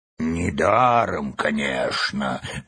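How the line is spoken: Grumbling bird. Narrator (Russian): буркнула мудрая птица

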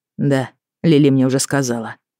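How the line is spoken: Muffled flat reply. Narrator (Russian): глухо ответил брат

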